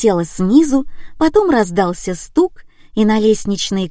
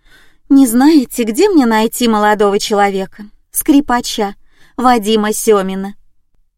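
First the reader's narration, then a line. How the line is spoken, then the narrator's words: Question with feigned sigh. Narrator (Russian): притворно вздохнув, спросила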